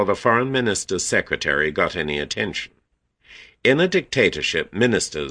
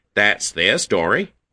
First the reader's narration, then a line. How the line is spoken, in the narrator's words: he said brightly